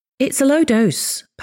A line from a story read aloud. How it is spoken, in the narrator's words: Paolo said